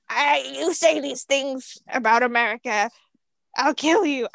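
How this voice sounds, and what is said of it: Odd put-on accent, not American. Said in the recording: “Is that supposed to be an accent? ... It wasn't supposed to be American, so I don't know why I chose it.”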